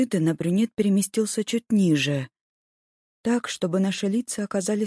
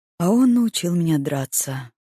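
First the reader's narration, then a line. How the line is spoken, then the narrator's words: Calm. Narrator (Russian): ответил он спокойно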